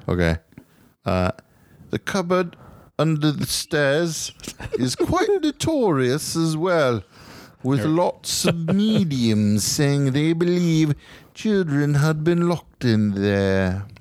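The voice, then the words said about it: Put-on British accent. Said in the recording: “I guess I should give the British accent, huh? Because he's probably in a British accent.”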